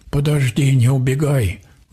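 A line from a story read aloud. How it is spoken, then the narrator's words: Pleading. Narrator (Russian): взмолился водяник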